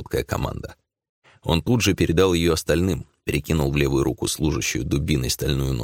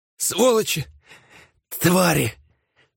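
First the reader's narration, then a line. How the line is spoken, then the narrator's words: Breathed out in shock. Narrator (Russian): выдохнула одна из женщин, изумленно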